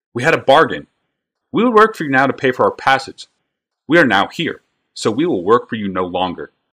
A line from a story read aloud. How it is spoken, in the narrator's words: said calmly, though loud enough for the surrounding crowd to hear